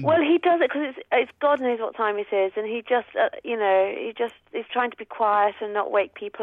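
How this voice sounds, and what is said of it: Posh English accent. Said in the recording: “nice posh mum ... You're quite posh. ... Sound posh.”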